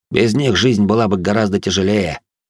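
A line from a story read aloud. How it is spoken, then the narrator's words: Grumbled mutter. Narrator (Russian): буркнул он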